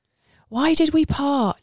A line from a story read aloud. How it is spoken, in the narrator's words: cried to the wind